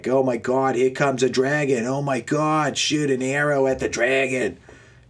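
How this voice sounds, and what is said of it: Exaggerated, poor Boston accent. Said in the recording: “the strongest Boston accent ever ... that's a terrible Boston accent”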